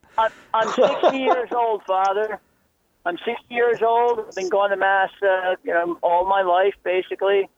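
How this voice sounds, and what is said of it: Philadelphia accent. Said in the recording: “that Philadelphia accent.”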